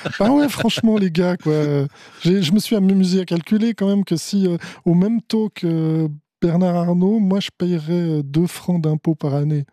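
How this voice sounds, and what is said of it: Strong Fribourg Swiss French accent. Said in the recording (French): “un fort accent fribourgeois”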